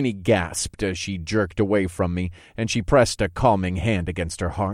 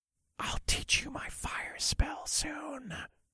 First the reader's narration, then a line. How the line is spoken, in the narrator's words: I whispered